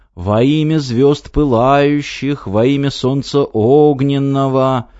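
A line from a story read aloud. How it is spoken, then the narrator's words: Chanted singsong. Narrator (Russian): произнес нараспев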